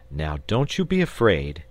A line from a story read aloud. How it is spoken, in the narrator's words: he added kindly